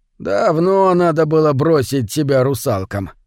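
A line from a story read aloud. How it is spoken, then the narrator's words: Old man's mock grumble. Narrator (Russian): изображая недовольство, проворчал старый рыбак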